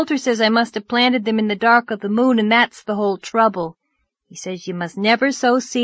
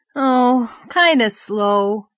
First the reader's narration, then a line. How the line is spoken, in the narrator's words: said Davy with a sigh